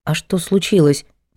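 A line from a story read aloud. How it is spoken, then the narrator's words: Mumbled. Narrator (Russian): пробормотала Надя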